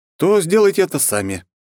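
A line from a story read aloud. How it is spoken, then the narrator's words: Snorting. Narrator (Russian): хмыкнул я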